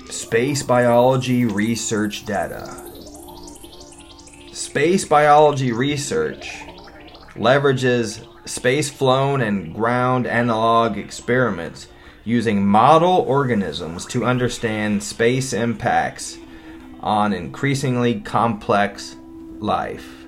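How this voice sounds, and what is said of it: Put-on narrator voice. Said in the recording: “I might use my narrator voice. Because it makes me feel good to use my narrator voice.”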